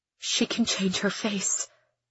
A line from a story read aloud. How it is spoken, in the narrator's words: she whispers